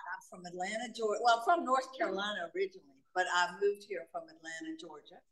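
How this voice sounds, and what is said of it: Boston-sounding accent. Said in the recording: “everybody's going to think I'm from Boston because I have that accent”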